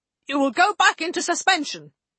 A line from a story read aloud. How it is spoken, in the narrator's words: Guyon snapped